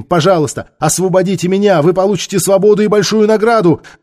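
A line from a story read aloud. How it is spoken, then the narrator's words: Shouted. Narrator (Russian): Ментака крикнула им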